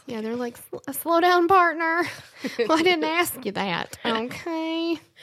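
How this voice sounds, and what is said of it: Put-on country accent. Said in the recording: “What accent were you doing? ... Like, I can do naturally a country accent.”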